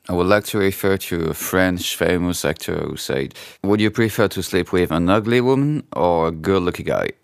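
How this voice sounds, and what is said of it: Non-native English accent, French speaker. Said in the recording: “excuse my accent”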